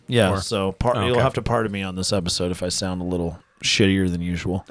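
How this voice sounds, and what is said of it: Raspy, congested voice. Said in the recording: “I've got a bit of a chest congestion. ... A little raspy?”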